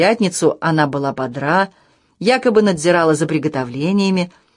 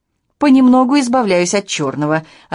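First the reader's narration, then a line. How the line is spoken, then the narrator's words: Cheerful report. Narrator (Russian): радостно доложила Арманда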